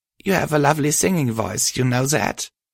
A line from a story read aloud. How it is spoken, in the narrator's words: I chuckled